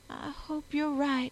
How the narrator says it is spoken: she breathed timidly

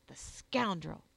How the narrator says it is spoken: he would say savagely

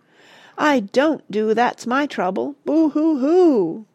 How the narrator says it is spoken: roared the dragon, tears running down her cheeks

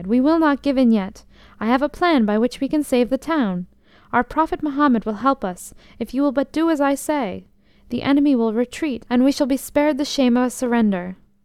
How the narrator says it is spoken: she cried

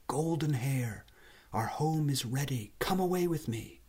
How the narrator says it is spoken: very softly called out

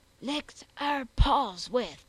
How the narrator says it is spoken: the butcher concluded in the same hoarse whisper

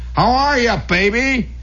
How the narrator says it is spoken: He yelled in his longshoreman's accent

